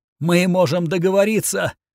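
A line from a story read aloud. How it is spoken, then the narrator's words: Hoarse rasp. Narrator (Russian): прохрипела она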